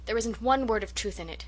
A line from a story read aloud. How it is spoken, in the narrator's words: she declared hotly